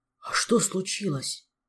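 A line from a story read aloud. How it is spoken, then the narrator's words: Surprised whisper. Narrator (Russian): Удивленным шепотом уточнил Кондратий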